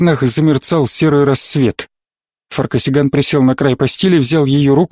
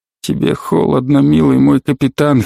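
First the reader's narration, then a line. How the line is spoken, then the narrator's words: Hoarse whisper. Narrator (Russian): хрипло прошептал он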